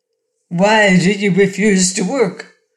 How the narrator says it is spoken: demanded Cor in a harsh voice

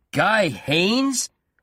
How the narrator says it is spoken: Dowland shouted

